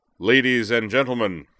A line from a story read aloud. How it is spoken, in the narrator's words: Moose boomed, silencing the chatter of the waiting crowd